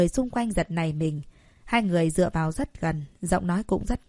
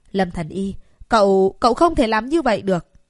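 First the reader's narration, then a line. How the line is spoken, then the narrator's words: Frantic scream. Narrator (Vietnamese): Người đàn ông đầu bóng loáng mặc áo bào trắng lấy lại tinh thần, điên cuồng hét lên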